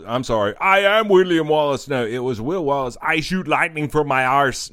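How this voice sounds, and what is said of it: Imitates another person's accent. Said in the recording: “with a fucking Schwarzenegger fucking accent”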